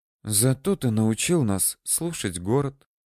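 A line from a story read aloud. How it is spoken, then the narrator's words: Quiet interjection. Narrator (Russian): тихонько вставила Карина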